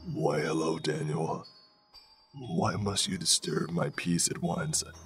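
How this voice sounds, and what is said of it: Raspy, deep creature voice. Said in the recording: “In a raspy, deep voice, the creature spoke to me.”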